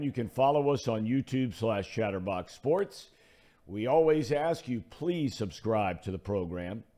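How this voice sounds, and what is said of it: Slightly hoarse voice. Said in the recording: “I'm a little hoarse today.”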